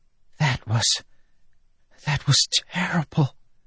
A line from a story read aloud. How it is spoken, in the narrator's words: she whispered